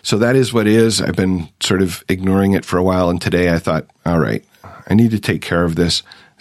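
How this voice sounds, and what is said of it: Lower, hoarse voice. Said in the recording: “my voice is a little lower, a little hoarser than usual. I'm fighting some kind of a cold. This one seems to have settled into my throat”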